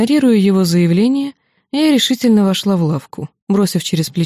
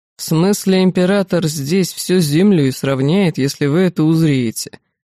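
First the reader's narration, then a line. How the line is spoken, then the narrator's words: Gloomy. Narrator (Russian): мрачно сообщил мне Техарс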